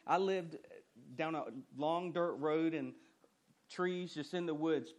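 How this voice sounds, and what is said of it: Noticeable rural regional accent. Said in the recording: “not that you can't tell by my accent”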